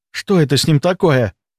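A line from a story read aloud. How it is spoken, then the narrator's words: Whispered question. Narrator (Russian): шепотом спросил Костик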